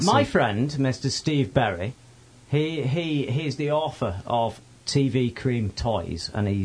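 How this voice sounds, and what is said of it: Usual voice. Nothing is said of it.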